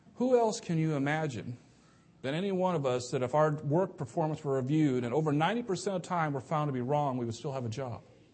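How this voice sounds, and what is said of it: Sarcastic tone. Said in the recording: “it sounds sarcastic, and it is ... I say that sarcastically”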